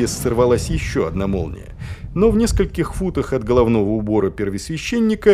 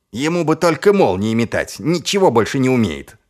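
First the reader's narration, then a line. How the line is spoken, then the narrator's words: Snapping. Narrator (Russian): огрызнулся Чудакулли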